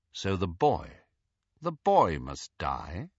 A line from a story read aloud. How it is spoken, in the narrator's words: asked Snape, quite calmly